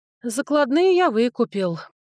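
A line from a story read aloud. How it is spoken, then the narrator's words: Sighing. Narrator (Russian): вздохнул брат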